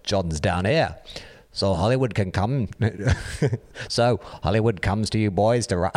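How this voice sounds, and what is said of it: Attempted Liverpool accent. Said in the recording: “continue reading this in a terrible Beatles accent? ... Is that Liverpool?”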